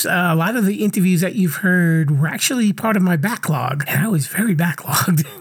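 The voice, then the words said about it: Voice sounds a little off. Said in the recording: “as you can kind of hear in my voice, I sound a little weird ... I had some vocal cord issues”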